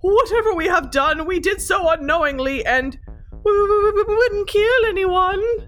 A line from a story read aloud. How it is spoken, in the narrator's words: Nesta added, choking on her sobs